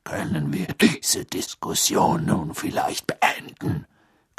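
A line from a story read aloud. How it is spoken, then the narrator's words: Growling. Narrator (German): knurrte Moody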